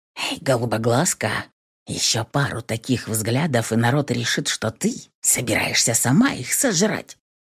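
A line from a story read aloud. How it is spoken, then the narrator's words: Quiet whisper near ear. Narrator (Russian): Раздался тихий шепот напарника возле самого уха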